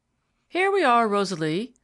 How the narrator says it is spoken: called out her father

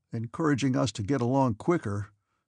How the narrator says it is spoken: said another uneasily

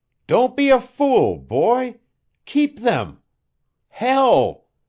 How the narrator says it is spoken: He was struggling to sit up, and cried aloud

